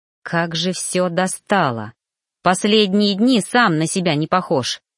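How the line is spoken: Angry growl. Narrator (Russian): Рыкнул гневно, злясь

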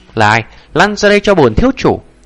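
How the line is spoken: Furious shout. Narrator (Vietnamese): Ngô Luyện, mặt hắn là khó nhìn đến cực điểm hét lớn

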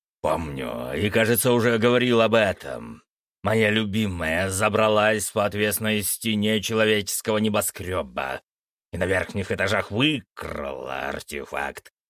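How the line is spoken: Growling. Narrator (Russian): рыкнул Фенрис

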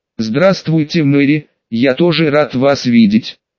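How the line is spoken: Cold reply. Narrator (Russian): Холодно ответил я

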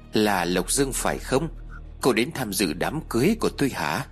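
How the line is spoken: Sneering question. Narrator (Vietnamese): cô ta khẽ nhếch miệng cười khẩy rồi hỏi tôi

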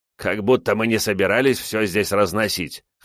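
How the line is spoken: Snort. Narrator (Russian): хмыкнул Мэдзи

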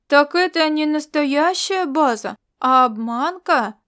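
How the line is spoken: Disappointed drawl. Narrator (Russian): разочарованно протянул Микава, еще один из четверых новичков в группе Черцея Сан Дицру

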